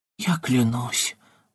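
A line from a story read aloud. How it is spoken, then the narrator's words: Sad whisper. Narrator (Russian): уже совсем печально прошептала Юлия Кун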